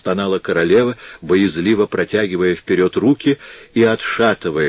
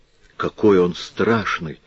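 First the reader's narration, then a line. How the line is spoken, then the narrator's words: Whisper. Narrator (Russian): прошептала Изабелла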